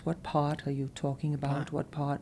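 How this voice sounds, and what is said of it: English accent, dropped R's. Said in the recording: “the English accent where there aren't any R's... So like the English would say pot”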